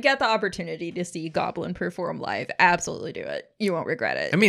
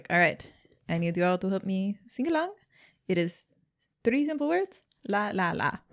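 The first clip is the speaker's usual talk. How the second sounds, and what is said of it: Put-on Italian accent. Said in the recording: “my Italian accent”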